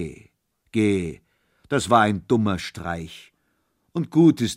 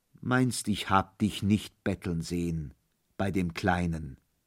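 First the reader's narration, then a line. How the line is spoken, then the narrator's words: Gentle addition. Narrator (German): setzte er sanft hinzu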